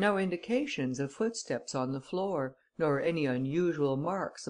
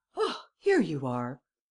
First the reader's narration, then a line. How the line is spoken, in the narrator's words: Devanne exclaimed